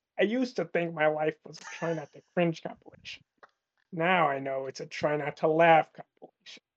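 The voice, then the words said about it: Joker character voice, badly done. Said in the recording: “best Joker impression ... it was so bad”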